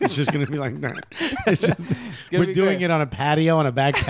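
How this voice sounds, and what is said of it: Usual voice. Nothing is said of it.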